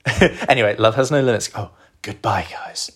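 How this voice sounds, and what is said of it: Soft, relaxing podcast voice. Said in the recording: “This is my relaxing podcast voice.”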